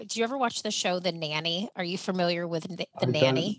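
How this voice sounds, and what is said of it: Nasal upbeat American accent. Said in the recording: “your lovely, upbeat American accent ... This is called a nasal twang ... I'm half Southern in the US, half Midwestern ... this really nasally voice ... sometimes I'm a little Southern”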